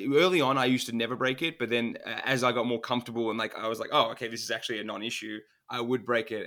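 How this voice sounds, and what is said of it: Non-American accent. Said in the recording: “in America, we really love your accent”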